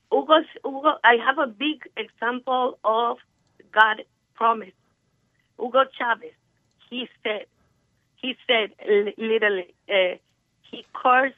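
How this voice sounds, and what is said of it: Slight non-native English accent. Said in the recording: “My English is a little, it has a little accent.”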